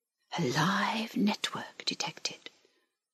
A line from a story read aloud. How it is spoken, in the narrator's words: whispered the link